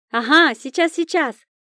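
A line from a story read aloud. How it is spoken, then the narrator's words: Shouted reply. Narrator (Russian): крикнула в ответ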